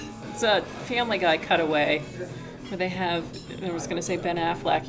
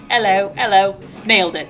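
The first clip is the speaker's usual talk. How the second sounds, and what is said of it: Put-on English accent. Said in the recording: “practicing the English accent”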